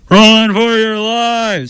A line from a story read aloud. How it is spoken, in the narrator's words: Splat shouted with all his might